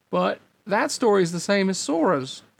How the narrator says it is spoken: Goofy exclaimed almost before the replica had finished talking

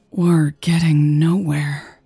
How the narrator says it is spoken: she sighed

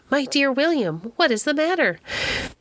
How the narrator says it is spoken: Morris was very alarmed and cried out

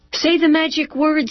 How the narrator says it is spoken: he called out

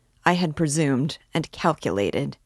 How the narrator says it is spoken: he faltered

